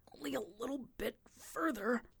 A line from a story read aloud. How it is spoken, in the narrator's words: grunted Johnson